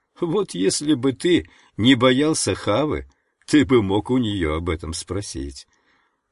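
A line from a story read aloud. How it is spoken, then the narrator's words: Teasing with metallic laugh. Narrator (Russian): Ананда рассмеялся своим металлическим смехом и, подразнивая, сказал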